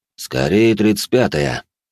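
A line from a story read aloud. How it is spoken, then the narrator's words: Deep bass voice. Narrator (Russian): пробасил император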